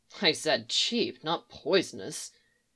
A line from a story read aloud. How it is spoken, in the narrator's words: she muttered